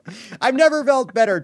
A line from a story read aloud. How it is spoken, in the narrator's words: Trump shouted